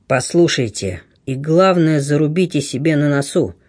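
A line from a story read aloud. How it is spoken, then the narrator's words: Muffled voice. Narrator (Russian): глухим голосом проговорил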